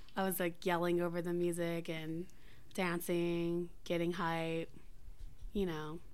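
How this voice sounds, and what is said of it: Raspy, hoarse voice. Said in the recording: “you could probably hear it in my voice. My voice is even more annoying than usual and more raspier.”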